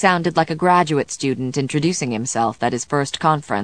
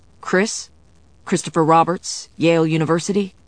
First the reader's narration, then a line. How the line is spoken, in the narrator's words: Chris stammered